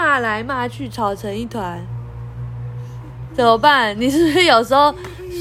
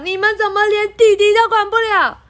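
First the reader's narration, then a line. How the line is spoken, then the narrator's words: Loud shout. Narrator (Chinese): 爸爸 大叫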